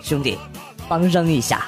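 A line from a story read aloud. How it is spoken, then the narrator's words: Low voice. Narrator (Chinese): 他低声和我说了一句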